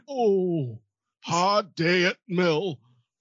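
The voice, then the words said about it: Old Yorkshire man accent. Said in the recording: “my only other English accent is the old man from Yorkshire”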